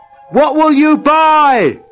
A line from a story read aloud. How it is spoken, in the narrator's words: someone yelled out